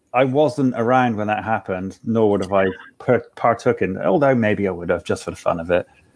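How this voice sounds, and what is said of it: Bristolian accent. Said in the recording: “the authentic pirate accent... authentic Bristolian pirate”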